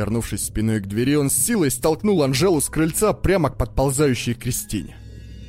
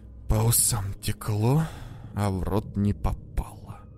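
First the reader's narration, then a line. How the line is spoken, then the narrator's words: Whisper. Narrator (Russian): прошептал Дэн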